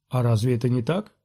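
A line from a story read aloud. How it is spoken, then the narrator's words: Calm question. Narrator (Russian): спокойно спросил Оби-Ван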